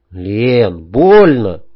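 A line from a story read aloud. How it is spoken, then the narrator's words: Timid squeak. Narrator (Russian): робко пискнул я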